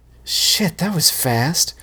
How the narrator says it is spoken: breathed Samantha

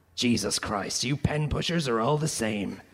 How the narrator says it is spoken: he growled

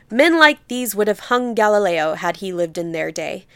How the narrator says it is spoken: Townsend thundered, oratorically

